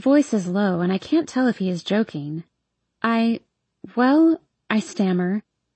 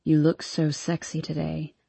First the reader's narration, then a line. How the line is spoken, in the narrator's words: he says against my neck